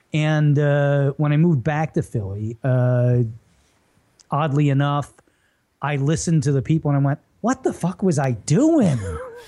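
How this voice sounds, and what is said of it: Philadelphia accent, hard clipped endings. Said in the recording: “they don't have this hard edge to the voice... they say their G's... we just cut everything off... I worked really hard from 7 to 18 to keep this accent... But I still kind of have it... You definitely still”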